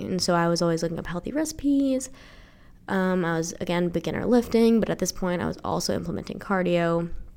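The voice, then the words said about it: Nasal, congested sick voice. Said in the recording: “I'm sick and I sound nasally as fuck ... my voice sounds like shit”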